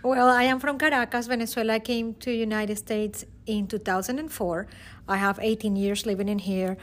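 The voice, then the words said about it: Venezuelan Spanish accent. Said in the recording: “that where that very awesome accent is coming from?”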